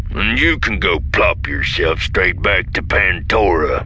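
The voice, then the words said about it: Voice with a distinctive twang. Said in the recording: “There is a distinctive twang to his voice ... It is not identical to Vanto's accent, but with strong similarities, likely indicating similar wild space roots.”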